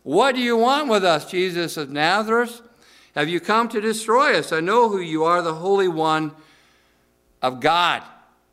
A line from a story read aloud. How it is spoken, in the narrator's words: possessed by an evil spirit that cried out